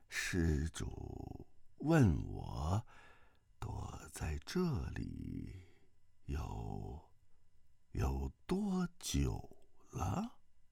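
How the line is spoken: Listless old monk's voice. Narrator (Chinese): 这老僧 全无精神 但说话声音正是适才称赞萧峰的口音

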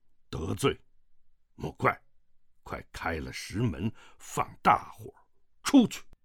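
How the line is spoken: Low voice. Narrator (Chinese): 萧峰低声道

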